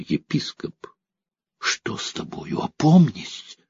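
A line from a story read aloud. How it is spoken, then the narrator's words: Exasperated exclamation. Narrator (Russian): Анна не выдержала и воскликнула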